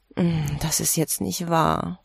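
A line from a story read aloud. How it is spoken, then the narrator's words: Groaned. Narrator (German): stöhnte sie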